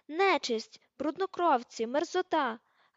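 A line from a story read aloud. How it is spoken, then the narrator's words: Shrieking. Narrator (Ukrainian): верещала вона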